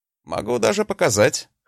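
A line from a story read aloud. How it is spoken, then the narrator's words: Snorting. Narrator (Russian): хмыкнул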